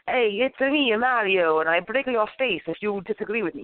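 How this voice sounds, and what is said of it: Bad put-on Italian accent. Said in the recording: “a really bad Italian accent.”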